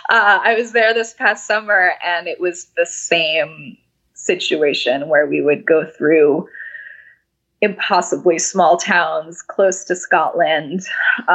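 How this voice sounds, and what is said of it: Hoarse, fading voice. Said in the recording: “I'm like losing my voice.”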